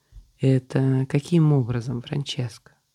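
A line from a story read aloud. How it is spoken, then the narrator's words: Man's tired sigh. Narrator (Russian): Устало вздохнул мужчина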